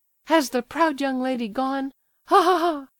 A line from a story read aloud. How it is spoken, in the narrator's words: She laughed hysterically